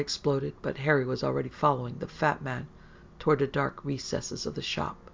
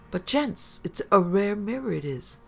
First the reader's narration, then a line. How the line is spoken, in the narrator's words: the fat man said sadly